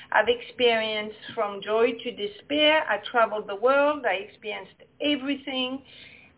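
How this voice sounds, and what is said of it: Speaking with a noticeable accent. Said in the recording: “I love the accent, so I'm glad it hasn't gone anywhere.”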